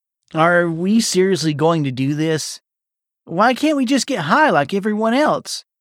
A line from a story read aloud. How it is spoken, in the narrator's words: Vernon whined